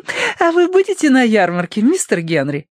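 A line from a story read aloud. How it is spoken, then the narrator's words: Giggling. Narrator (Russian): хихикнула Лилия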